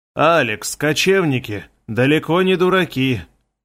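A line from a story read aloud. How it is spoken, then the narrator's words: Sighing. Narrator (Russian): вздохнул Хагел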